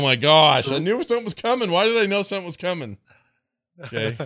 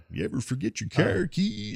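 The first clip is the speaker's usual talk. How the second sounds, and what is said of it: Imitates another person's voice, badly. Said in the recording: “doing a terrible Sean Connery impression”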